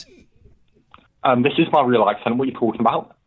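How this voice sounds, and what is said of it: Fake, shifting British regional accent. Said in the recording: “it's all over the shop, mate ... You're using a fake voice ... It's gone from Tyne and Weir to I don't know where to Liverpool.”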